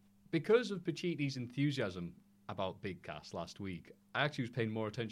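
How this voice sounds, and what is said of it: Usual voice. Nothing is said of it.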